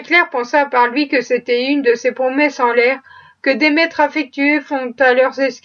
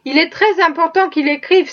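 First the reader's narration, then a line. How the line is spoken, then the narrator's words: Exclamation. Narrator (French): s'écria Eva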